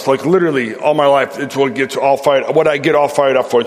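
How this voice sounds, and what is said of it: Chicago American accent. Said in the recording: “I'm from Chicago, so my accent may take a minute to get used to”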